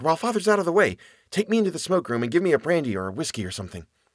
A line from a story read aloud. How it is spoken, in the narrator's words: whispered